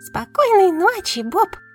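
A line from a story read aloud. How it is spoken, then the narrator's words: Squeaky. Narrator (Russian): пищала Бибиди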